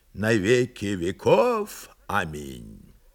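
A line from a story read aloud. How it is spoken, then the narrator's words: Solemn proclamation. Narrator (Russian): Кигио торжественно провозгласил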